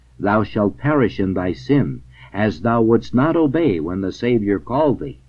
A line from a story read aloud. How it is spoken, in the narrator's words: exclaims Amos the prophet